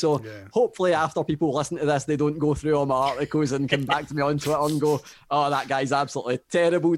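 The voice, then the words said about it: Strong accent. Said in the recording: “people can already tell that I've got quite a strong accent”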